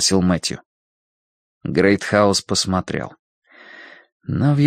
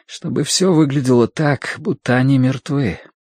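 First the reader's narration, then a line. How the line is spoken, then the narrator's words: Slightly trembling voice. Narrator (Russian): сказал Мэтью слегка дрогнувшим голосом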